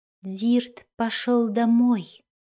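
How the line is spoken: Soft. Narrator (Russian): мягко сказал он

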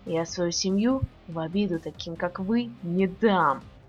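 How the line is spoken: Hissed. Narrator (Russian): прошипел Саша

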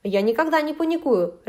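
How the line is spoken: Barked. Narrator (Russian): рявкнул Михаил

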